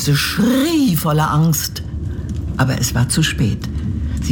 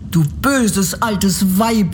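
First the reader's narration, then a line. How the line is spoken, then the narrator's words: Angry girl shouting. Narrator (German): rief das Mädchen und wurde so zornig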